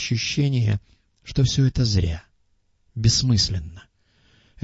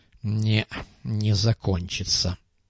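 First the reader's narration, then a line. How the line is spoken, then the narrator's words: Grumbling. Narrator (Russian): проворчал Муха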